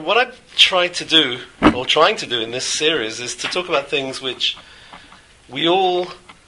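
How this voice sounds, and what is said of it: Voice slightly off from a cold. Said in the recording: “my voice is not 100%. I'm trying to sort of fight an autumnal cold”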